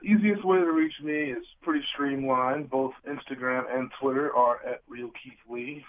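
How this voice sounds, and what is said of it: Sick, strained voice. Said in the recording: “You have to forgive my voice. I've been sick most of this week.”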